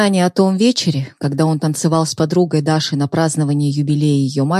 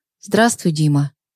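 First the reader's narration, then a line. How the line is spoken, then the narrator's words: Ex-wife, saccharine sweet. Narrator (Russian): прозвучали до слащавости ласково слова его бывшей жены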